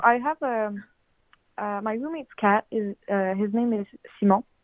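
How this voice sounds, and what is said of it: Slight French Canadian accent. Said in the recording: “I'm from Canada, like the French part, so I might have a weird accent... You have a little accent”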